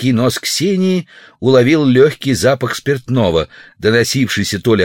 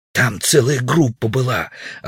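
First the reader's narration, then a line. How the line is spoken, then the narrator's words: Loud defensive whisper. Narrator (Russian): оправдывался Удалов громким шепотом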